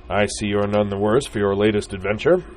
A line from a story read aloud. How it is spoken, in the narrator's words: boomed the man